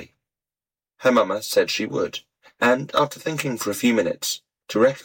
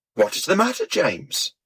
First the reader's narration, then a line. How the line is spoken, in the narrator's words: we all cried out